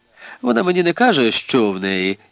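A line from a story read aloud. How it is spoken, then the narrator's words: Sigh. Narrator (Ukrainian): зітхнула Аліса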